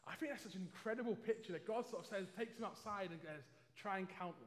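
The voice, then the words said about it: London English accent. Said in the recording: “Hopefully you can tell just about still from my accent at least that I'm originally from London”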